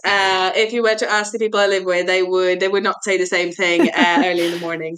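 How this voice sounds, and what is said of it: British-sounding accent. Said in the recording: “you have a very British accent”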